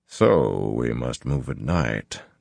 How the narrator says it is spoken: Tom murmured

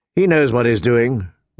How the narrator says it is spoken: Ned said calmly

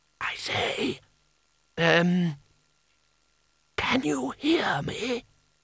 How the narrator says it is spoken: he put his mouth as close as he could to the draughty, dusty gap under the bottomest hinge and whispered

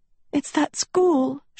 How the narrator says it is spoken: she sobbed

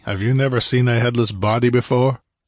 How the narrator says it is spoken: Conan asked testily

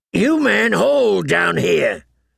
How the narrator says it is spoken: he shouted

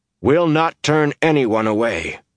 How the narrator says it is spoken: he said in a tight voice

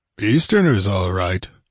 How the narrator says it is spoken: grunted Conan

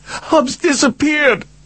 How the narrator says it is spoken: she screamed

